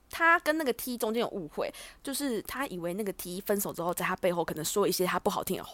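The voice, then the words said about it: Speaking quietly, lowered voice. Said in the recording (Chinese): “你其实不用讲那么小声 ... 就想变小声 ... 声音都会突然变小”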